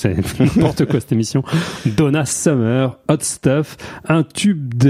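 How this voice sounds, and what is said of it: Usual voice. Nothing is said of it.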